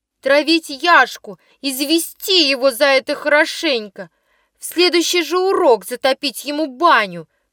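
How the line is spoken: Shouting crowd. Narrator (Russian): кричали в одном углу

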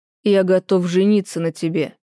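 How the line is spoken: Confident steely voice. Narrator (Russian): говорит Анкезов уверенным стальным голосом

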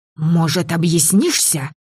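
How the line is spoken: Hiss. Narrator (Russian): прошипела Кат

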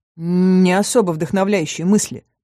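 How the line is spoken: Wry snort. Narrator (Russian): хмыкнула я

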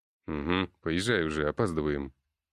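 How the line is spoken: Muttered. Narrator (Russian): буркнул я

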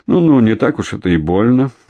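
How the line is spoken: Mocking. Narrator (Russian): насмешливо проговорил генерал Зубов

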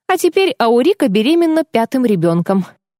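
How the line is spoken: Laughing. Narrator (Russian): рассмеялась Кэс

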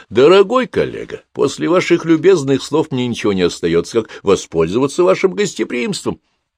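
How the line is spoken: Cheerful smiling speech. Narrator (Russian): широко улыбнулся, весело произнеся

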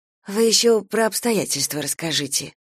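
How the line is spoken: Quiet. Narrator (Russian): тихо проговорила Дуня

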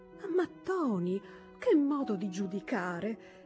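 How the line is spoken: Mildly indignant exclamation. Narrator (Italian): esclamò sua madre un po' indignata

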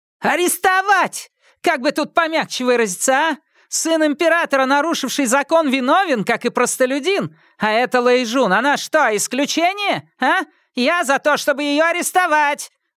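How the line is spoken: Yelling. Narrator (Russian): вопила Лю Сяо Хун

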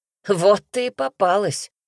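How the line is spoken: Smirking snort. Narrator (Russian): хмыкнул

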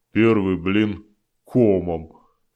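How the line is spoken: Grumbled. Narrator (Russian): пробурчал Дым

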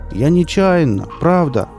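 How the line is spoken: Shouted after someone. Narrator (Russian): крикнул он ему вдогонку

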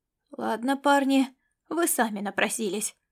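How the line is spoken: Gruff mutter. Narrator (Russian): буркнул Ласло

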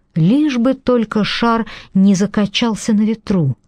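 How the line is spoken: Silent pleading prayer. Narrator (Russian): мысленно взмолилась она

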